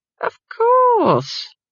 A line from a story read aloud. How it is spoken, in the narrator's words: said Granny haughtily